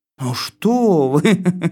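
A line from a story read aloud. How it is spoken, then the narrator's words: Laughing. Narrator (Russian): засмеялась коза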